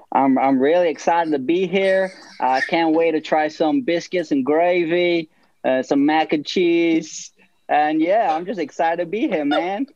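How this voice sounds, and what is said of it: Attempted American southern accent. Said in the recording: “I could try a southern accent, maybe... your best southern accent”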